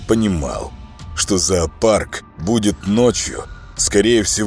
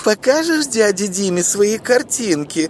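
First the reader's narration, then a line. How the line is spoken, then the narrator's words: Thin crazed mother's voice. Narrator (Russian): разговаривала мама с дочуркой тоненьким голосом умалишенной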